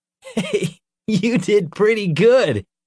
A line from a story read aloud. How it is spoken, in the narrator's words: he chuckled